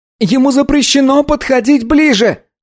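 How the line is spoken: Child shouting. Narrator (Russian): крикнул мальчик

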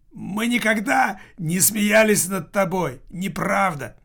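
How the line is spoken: Effortful shout. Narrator (Russian): Килькина хватило сил выкрикнуть

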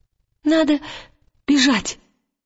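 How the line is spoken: Babbling. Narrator (Russian): пролепетал Вальтамос

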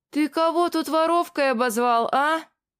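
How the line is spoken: Shouting. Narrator (Russian): закричала та

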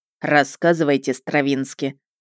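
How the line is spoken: Dry. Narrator (Russian): произнес сухо

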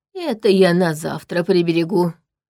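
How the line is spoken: Hoarse wheeze. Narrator (Russian): просипел тот

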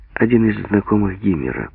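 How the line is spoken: Calm. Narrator (Russian): спокойно сказала Лена

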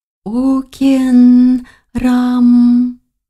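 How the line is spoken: Sing-song young woman. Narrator (Russian): нараспев проговорила девушка

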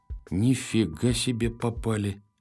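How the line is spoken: Dejected mumble. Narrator (Russian): промямлил он упавшим голосом

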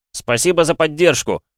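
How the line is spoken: Shouted. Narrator (Russian): Я крикнул

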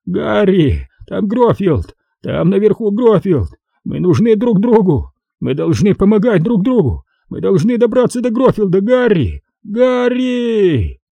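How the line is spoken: Sobbing. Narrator (Russian): всхлипывающие звуки

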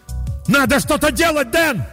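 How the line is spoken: Yelled at full voice. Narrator (Russian): заорал я во весь голос

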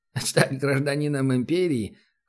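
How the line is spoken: Laughing. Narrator (Russian): хохотнул провожатый

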